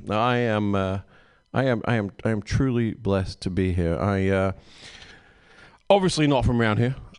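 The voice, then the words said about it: Non-American foreign accent. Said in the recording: “This is the accent you could have had ... Who else would want this accent?”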